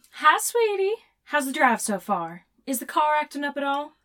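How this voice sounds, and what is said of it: Soft Southern drawl. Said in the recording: “the soft drawl of her southern accent”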